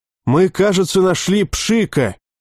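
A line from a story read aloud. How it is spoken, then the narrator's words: Shout from nearby. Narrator (Russian): крикнули в стороне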